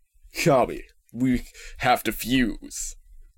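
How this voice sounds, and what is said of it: Cartoon character voice impression. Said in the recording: “Let me do a Piccolo voice.”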